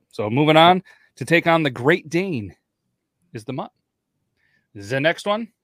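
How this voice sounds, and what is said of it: Weird German accent. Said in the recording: “I have a weird German accent.”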